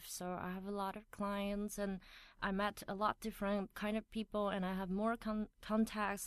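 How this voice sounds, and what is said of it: Mix of British and American English. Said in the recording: “you have such a, an amazing English accent. You kind of have a mix of British and American accents.”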